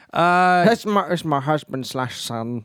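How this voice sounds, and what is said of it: Imitates another person's voice. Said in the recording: “You do a good impression of her as well.”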